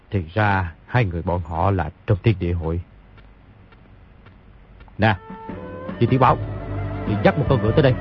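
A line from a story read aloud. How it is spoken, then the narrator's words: Muttering. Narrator (Vietnamese): lẩm bẩm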